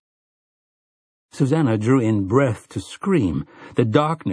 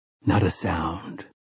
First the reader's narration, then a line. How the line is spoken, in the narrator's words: Roland of Gilead whispered in her ear